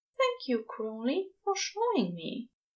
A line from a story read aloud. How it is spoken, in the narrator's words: Aziraphale says very softly